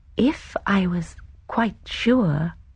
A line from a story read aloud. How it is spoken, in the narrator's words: Miss Marple said slowly